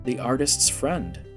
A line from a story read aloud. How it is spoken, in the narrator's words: Yanfrey replied with a chuckle